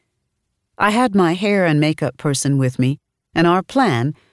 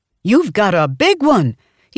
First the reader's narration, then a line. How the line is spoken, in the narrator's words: he shouted